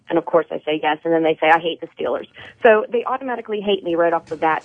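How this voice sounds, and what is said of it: Pittsburgh accent. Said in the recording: “"Are you from Pittsburgh?" Yeah. I cannot get rid of this accent”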